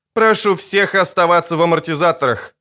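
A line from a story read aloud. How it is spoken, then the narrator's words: Plain female voice. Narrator (Russian): сказала женщина-пилот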